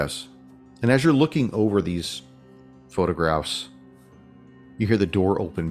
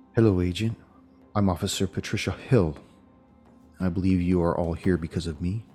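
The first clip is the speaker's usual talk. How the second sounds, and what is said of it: Low-voiced female officer character. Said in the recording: “in a low voice”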